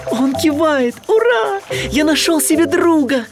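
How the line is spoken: Joyful shout. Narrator (Russian): Гадкий утенок радостно крикнул

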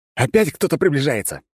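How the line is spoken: Alarmed shout. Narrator (Russian): заорал я, предчувствуя недоброе

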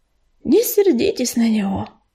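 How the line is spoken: Sighing. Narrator (Russian): вздохнул Горелый

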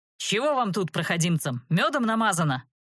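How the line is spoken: Increasingly indignant bark. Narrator (Russian): гаркнул он, с каждым словом все больше преисполняясь праведным гневом

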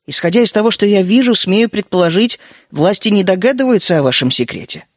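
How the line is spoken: Calm. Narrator (Russian): спокойно сказал я

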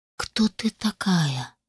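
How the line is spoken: Barely audible question. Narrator (Russian): едва слышно спросил Коннор

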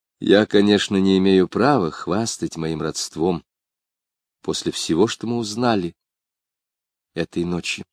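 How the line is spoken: Sad. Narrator (Russian): сказала она печально

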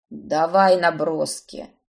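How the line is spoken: Grumbling. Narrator (Russian): буркнул Итан

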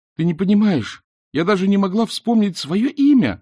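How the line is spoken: Crying out. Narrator (Russian): вскрикнула Эск

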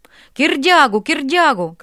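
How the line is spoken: Crowd shouting. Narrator (Russian): кричала толпа

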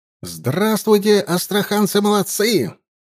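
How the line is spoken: Shouting. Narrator (Russian): крикнул Суворов

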